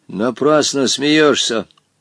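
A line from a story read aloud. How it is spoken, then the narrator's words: Stern. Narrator (Russian): строго остановил его Волька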